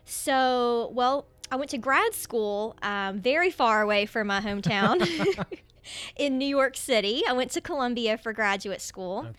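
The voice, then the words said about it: West Virginia regional accent. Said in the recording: “I am from a very small town in West Virginia ... in case you couldn't tell with my accent, Canova is right on the borders of Ohio and Kentucky”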